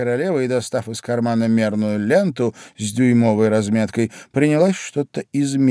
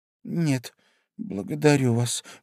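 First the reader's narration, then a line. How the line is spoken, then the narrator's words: Forced strained words. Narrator (Russian): выдавила Алиса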